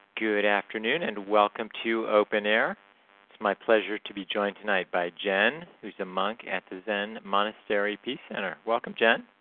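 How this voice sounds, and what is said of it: Voice deeper than usual. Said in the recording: “my voice is a little deeper today ... A little deeper”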